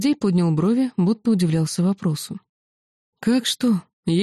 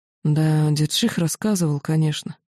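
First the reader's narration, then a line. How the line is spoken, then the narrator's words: Sighing. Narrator (Russian): вздохнул Всеволод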